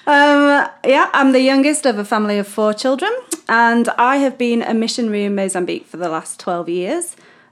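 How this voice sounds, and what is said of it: British English accent. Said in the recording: “I am British, for a start, as you can tell by my wonderful accent. ... That's not fake. ... It's all real”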